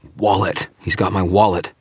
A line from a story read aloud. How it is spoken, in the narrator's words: dragged in a breath and managed to gasp